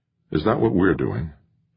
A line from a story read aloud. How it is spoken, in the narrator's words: Jamie asked himself silently